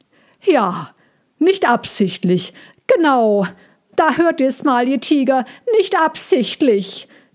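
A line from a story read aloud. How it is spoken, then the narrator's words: Loud call. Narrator (German): rief Ludwig laut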